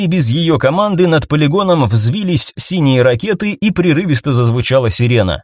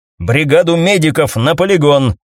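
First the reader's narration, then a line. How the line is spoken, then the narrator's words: Barked into microphone. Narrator (Russian): рявкнула майор в микрофон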